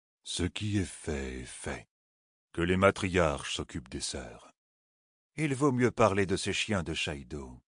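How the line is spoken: Very gentle. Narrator (French): dit Janwin d'un ton très doux

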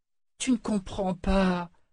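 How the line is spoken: Young, near-tears murmur. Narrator (French): murmura le jeune Haken au bord des larmes

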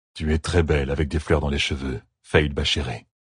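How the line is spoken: Murmured. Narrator (French): murmura Rolan

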